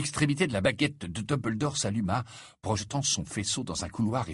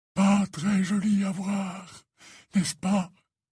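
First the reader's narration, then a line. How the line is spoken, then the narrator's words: Dejected voice. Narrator (French): dit-il d'une voix accablée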